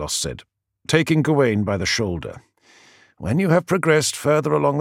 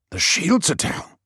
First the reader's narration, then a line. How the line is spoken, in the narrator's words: hissed Werin